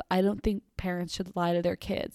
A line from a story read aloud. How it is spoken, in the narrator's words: My dad muttered